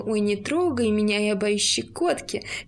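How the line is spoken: Mimicking another's voice. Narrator (Russian): рыжий подделался под мой голос

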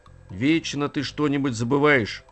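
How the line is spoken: Grumble. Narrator (Russian): проворчал Ворчун

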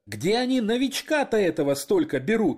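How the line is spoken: Laughing loudly. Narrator (Russian): хохотал офицер справа

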